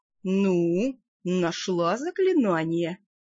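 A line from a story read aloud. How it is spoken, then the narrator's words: Exaggeratedly sweet question. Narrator (Russian): преувеличенно ласково поинтересовался он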